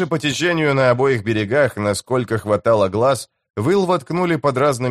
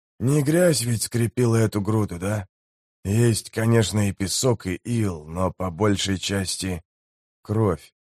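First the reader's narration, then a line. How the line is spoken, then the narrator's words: Quiet. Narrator (Russian): тихо закончил Гаммет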